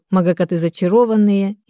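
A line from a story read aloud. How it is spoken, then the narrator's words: Sighing. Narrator (Russian): вздохнула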